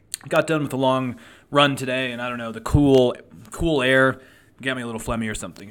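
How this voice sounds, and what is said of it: Hoarse, slightly phlegmy voice. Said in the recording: “if my voice sounds a little hoarse”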